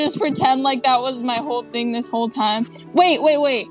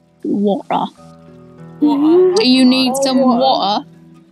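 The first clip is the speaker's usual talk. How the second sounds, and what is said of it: Put-on British accent. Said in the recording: “I just randomly changed my accent. ... It's actually British.”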